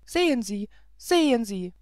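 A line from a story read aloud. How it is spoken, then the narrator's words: Call. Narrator (German): rief Zoraide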